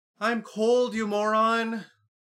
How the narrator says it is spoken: Lucy hollered

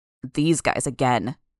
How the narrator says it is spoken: Bitch snarled

